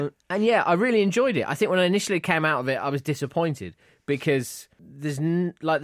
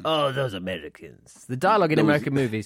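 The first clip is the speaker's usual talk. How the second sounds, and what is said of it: Attempted American accent sounding Russian. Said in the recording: “Is that your American accent ... No, it's like a Russian ... It did sound like a chip shop owner”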